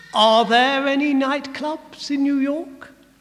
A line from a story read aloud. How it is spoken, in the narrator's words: Fisher replied rather pompously